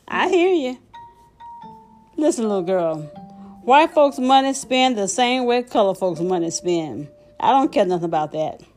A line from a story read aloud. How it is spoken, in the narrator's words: She laughed her happy laugh and said